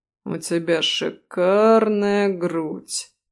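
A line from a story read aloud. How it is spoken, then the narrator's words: Drawling, rumbling undertone. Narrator (Russian): протянул Рэм, и теперь в его голосе появились ракочущие нотки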